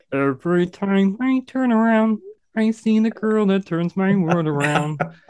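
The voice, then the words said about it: Sings in a Kermit the Frog voice. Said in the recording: “Vocal impersonation ... I like singing it as Kermit the Frog ... excellent ... That's so good.”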